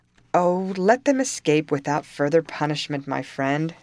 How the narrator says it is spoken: said Leisurely

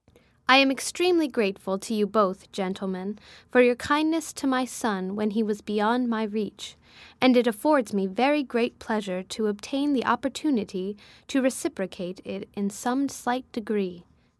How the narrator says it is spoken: said Mrs

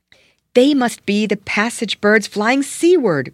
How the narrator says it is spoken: cried the boy

